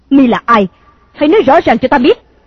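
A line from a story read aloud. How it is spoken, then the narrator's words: Angry shout. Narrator (Vietnamese): Công chúa giận dữ thét to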